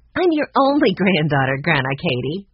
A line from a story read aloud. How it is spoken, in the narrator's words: Brianna answered, laughing again